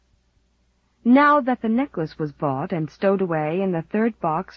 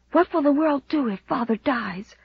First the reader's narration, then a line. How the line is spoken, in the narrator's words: whispered Walter, white-lipped